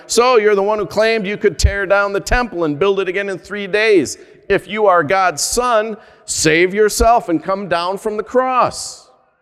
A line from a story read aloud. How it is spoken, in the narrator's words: shouted